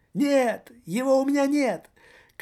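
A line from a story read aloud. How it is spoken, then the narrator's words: Shrill, unnatural squeal. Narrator (Russian): Каким-то неестественным тонким голоском взвизгнул господин радио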